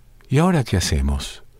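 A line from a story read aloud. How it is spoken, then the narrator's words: Doctor's sigh. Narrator (Spanish): suspiró el doctor al oír el pedido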